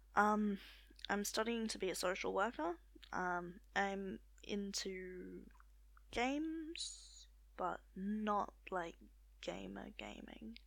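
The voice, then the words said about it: Australian accent. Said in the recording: “I live in Australia. You could probably tell that by the accent”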